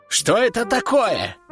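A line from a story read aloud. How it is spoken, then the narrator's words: Exclamation. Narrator (Russian): воскликнул Рэмбо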